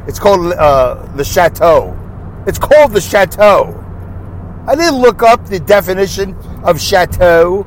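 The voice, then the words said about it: Brooklyn accent. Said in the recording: “my exotic Brooklyn accent”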